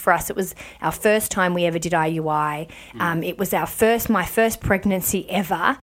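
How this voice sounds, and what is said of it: Hoarse, froggy-throated voice. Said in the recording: “I've got a bit of a frog in my throat too.”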